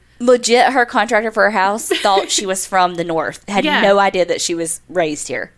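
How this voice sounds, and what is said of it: Strong regional accent. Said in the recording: “my accent is so strong”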